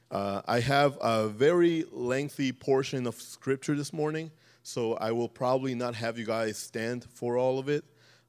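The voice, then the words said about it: Slightly raspy voice. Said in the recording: “hear from my voice, I'm a little raspy,”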